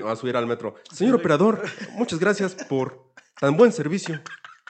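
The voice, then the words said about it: Put-on Mexico City chilango accent. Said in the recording (Spanish): “acento muy chido chilango ... se hace fabuloso acento”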